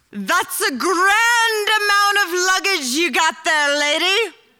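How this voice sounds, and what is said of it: Irish accent. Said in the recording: “These words are spoken in like this awesome Irish accent”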